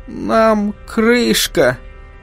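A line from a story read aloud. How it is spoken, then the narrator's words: Wheezed. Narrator (Russian): просипел он наконец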